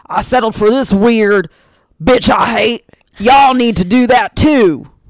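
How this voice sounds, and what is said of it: Exaggerated put-on Southern accent. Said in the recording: “It always goes to this weird Southern, my accents. ... some guy who's like the groundskeeper at like a graveyard ... Maybe Georgia.”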